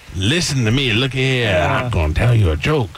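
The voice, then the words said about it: Inconsistent put-on colonel accent. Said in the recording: “You really got to narrow down that accent you're doing. You are all over the place.”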